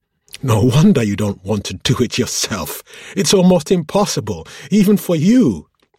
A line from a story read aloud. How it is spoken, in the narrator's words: she howled with mirth